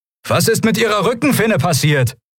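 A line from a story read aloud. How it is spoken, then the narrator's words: Shouting over the elements. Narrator (German): rief Kai gegen die Elemente an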